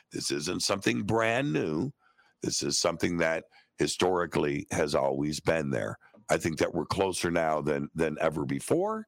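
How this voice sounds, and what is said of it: Strained, fading voice. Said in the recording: “as you can tell, I'm losing my voice.”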